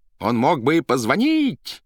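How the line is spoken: Several voices shouting. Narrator (Russian): кричали Денискин, Глухарев и Квант

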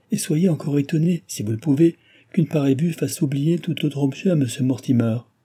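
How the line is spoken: Exclaimed. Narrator (French): s'écria le docteur

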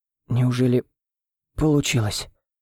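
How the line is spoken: Strained utterance. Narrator (Russian): Выдавил я

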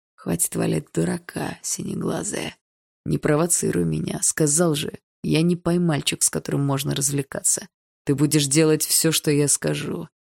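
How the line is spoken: Quiet, into ear. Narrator (Russian): тихо сказал на ухо

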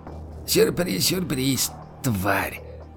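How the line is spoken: Hoarse rasp. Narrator (Russian): прохрипел историк

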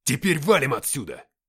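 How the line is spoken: Shouting. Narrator (Russian): крикнул подполковник

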